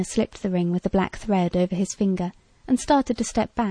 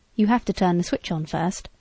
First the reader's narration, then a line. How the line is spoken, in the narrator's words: Biff said